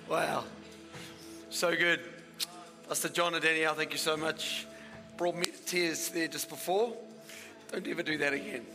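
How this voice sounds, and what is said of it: Worn-out, strained voice. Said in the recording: “I preach so loud I don't even need a microphone. Now my voice is stuffed.”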